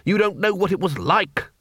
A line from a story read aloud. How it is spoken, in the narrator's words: muttered the Dean